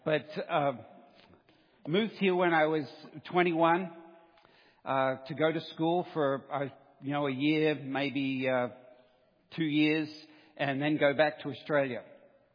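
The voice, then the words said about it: Australian accent. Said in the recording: “where the accent's from, I'm an Australian by birth ... Aussie speak”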